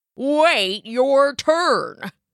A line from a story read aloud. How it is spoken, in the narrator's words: grunted the left goat